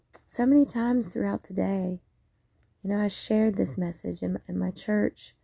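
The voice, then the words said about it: Strained, fading voice. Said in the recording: “my voice is kind of trying to check out on me a little bit from rejoicing”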